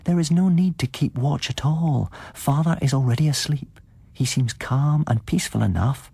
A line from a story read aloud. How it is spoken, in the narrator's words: put in Sedenka in her sweetest voice